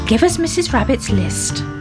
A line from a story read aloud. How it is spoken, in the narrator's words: said Grandpa Ted